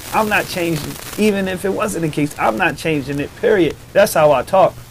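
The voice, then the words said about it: Baltimore accent. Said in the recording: “Baltimore got a unique accent ... you got a unique accent anyway”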